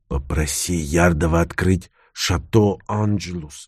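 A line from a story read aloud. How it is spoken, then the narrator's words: Whisper in the ear. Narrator (Russian): шепнул я на ухо Мариане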